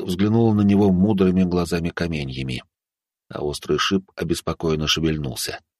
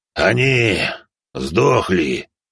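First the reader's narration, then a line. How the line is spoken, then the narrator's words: Low frightening voice. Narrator (Russian): Низким, пугающим голосом откликнулся пожиратель костей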